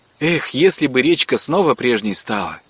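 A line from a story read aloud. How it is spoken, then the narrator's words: Pleased girl's sigh. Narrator (Russian): вздохнула девчонка, обрадованная, что разговор принял нужное направление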